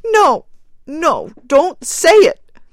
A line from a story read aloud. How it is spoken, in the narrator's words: cried the woman wildly